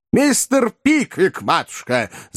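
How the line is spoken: Full-voiced yell. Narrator (Russian): заорал во весь голос мистер Уордль

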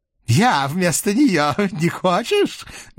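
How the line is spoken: Crazed laughter. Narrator (Russian): безумно рассмеялся он

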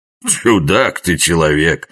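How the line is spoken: Laughing. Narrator (Russian): засмеялся Жихарь

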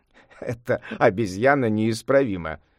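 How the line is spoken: Laughing. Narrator (Russian): рассмеялся небесный князь

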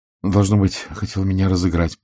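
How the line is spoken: Mutter. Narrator (Russian): пробормотал Реймонд

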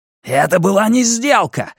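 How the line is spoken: Roared. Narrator (Russian): взревел Онбекенд

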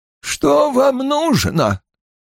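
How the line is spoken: Tired question. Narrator (Russian): спросила она усталым голосом

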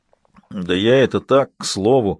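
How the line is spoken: Low grumble. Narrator (Russian): проворчал другой голос, более низкий

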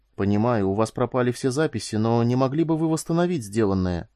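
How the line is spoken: Timid question. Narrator (Russian): робко спросила Корделия

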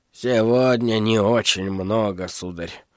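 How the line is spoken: Quiet. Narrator (Russian): негромко сказал он

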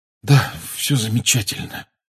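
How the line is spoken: Hoarse pained mutter. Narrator (Russian): хрипло пробормотал Гарри, превозмогая боль

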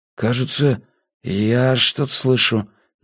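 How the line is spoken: Uncertain speech. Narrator (Russian): неуверенно сказал Гьяфи

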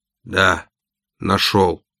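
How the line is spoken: Hoarse. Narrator (Russian): хрипло ответил я

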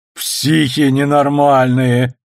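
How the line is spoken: Through laughter. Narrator (Russian): сквозь смех выговорил Арнольд

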